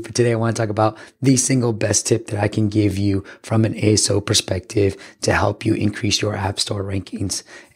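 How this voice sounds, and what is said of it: Hoarse, partly lost voice. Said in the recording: “I'm coming at you a little bit sick. My voice is a little bit gone”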